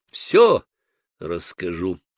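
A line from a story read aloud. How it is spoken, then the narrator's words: Solemn promise. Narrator (Russian): торжественно пообещал я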